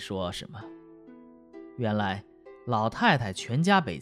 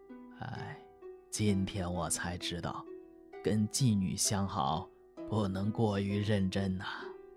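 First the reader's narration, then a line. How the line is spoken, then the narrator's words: Sighing. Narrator (Chinese): 赵东楼叹口气说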